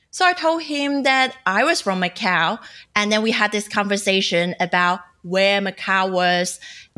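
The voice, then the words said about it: Cantonese-accented English. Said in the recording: “He recognized my Cantonese accent”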